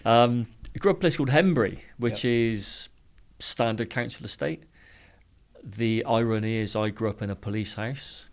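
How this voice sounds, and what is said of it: Bristol English accent. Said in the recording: “I grew up in Bristol, as you can tell by the accent. ... Lovely accent.”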